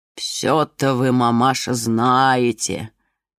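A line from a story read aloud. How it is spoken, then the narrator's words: Displeased muttering, behind fence. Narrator (Russian): Недовольно пробормотали за забором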